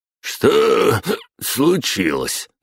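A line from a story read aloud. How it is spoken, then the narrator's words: Drawled. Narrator (Russian): протянул он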